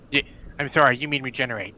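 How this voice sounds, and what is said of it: Nerdy, geeky put-on voice. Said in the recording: “say that in your geeky voice”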